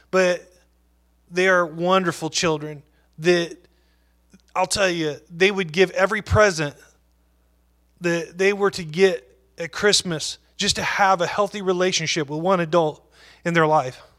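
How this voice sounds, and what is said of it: Emotional, moved voice. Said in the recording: “I'm a little emotional. It is emotional for me.”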